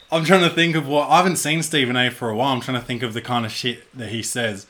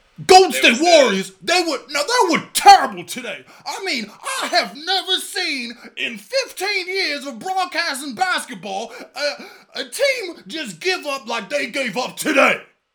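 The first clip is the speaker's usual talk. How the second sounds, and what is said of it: Imitates another person's voice. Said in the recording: “hear your Stephen A impression”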